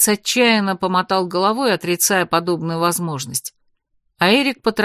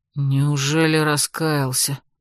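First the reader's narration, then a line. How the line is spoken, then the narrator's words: Bewildered mutter. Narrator (Russian): растерянно пробормотал вдовец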